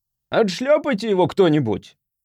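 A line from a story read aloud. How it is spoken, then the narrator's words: Angry shout from behind. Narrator (Russian): выкрикнул сзади чей-то сердитый голос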